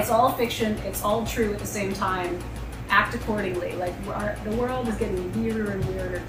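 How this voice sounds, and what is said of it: Southern US accent. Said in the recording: “my Southern accent is not a put on. I was born and raised in Atlanta, Georgia.”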